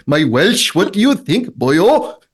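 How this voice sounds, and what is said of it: Attempted Welsh accent, sounds Pakistani. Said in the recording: “You sound more like you're from Pakistan ... That did sound a little bit like a Pakistani Welsh accent ... but you tried very hard there”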